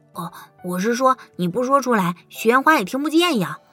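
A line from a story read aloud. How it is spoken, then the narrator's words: Hurried, flustered explanation. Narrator (Chinese): 小狐狸意识到自己说漏了嘴，急忙解释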